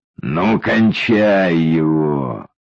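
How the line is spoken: Vicious wheeze. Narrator (Russian): злобно просипел Витя

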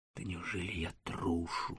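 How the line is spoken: Whispered. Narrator (Russian): сказал я шепотом

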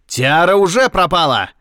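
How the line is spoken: Elephant-like roar. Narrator (Russian): взревел он, как слон

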